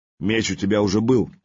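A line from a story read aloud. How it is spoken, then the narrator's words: Mocking. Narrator (Russian): насмешливо произнес Хривла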